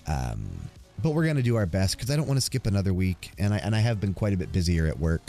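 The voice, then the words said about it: Rough, congested voice with sniffles. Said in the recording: “My voice was really rough. It's still not the best this week. I am still coughing. I'm still congested. You could probably hear me sniffle from time to time”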